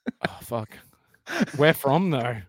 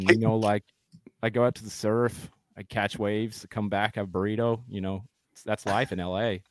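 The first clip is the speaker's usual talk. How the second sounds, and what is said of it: Put-on Californian American accent. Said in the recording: “your best American accent ... Just California ... Literally nailed it. ... Pretty good. ... Fucked up on burrito.”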